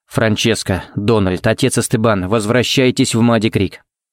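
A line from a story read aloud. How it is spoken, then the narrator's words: Forced even calm tone. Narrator (Russian): сказал он самым ровным и спокойным тоном, на какой был способен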